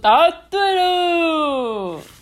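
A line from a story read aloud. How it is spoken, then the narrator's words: Loud. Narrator (Chinese): 长颈鹿老师大声的说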